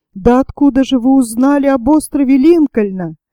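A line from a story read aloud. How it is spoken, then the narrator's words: Plain. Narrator (Russian): спросил Сайрес Смит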